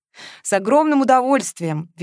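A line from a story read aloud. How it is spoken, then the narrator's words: Cheerful. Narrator (Russian): весело откликнулся Тимофей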